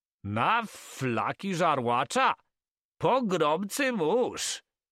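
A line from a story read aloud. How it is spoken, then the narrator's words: Shouted. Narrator (Polish): krzyknął Carman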